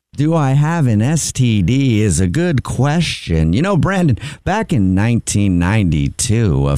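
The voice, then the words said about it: Slow baseball announcer voice. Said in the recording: “why are you talking so slow? ... Why are you talking like that? ... the little baseball announcer”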